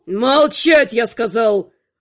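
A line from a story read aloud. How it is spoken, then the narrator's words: Barking. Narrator (Russian): Рявкнул Анхайлик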